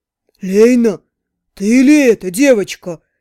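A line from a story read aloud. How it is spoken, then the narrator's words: Blacksmith's joyful boom. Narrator (Russian): Радостно прогудел кузнец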